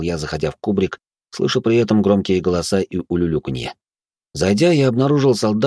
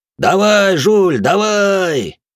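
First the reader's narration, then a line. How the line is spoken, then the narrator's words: Crowd yelling. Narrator (Russian): орали одни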